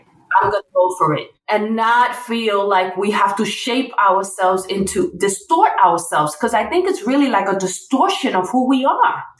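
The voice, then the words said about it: Puerto Rican New York accent. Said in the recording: “my whatever you want to call it accent, Puerto Rican, Princeton, New York Rican accent”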